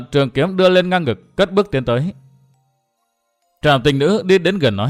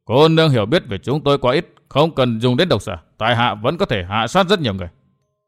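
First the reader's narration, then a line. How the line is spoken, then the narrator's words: Angry. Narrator (Vietnamese): Ma Sa Lý tức giận tiếp lời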